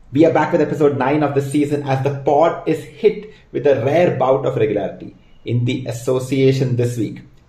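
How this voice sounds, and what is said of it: Indian accent. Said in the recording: “your favorite NBA podcast in an Indian accent.”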